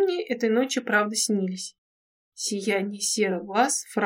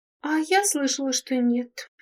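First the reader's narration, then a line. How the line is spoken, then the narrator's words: Sighing. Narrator (Russian): вздохнула амфибия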